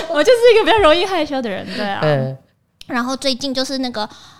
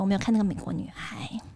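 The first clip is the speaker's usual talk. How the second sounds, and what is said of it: Speaking very quietly. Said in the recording (Chinese): “干嘛讲那么小声？”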